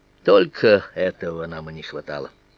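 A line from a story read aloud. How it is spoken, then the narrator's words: Weary, after heavy sigh. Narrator (Russian): я лишь тяжело вздохнул и сказал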